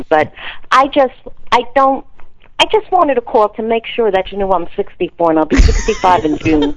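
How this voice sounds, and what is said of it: Strong regional family accent. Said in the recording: “Accent. ... They all talk like this, and it's amazing that I have a normal voice.”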